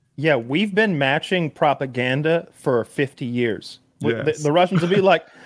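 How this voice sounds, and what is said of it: Usual voice. Nothing is said of it.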